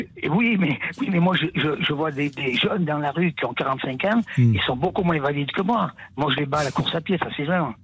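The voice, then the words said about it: Lyonnais regional French accent. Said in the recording (French): “cet accent de Lyon qu'on adore tellement ... c'est l'accent un peu d'Aimé Jacquet ... C'est un peu mélangé comme accent ... c'est l'accent de Saint-Chamond également”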